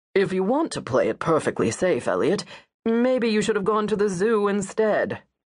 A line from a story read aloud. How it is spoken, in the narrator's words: Richard says, ... his cutting remark